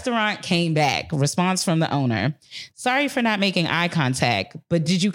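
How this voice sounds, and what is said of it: Usual voice. Nothing is said of it.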